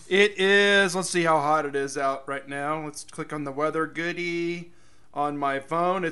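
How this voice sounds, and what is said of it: Slightly rough, strained voice. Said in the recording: “my voice is a little yucky”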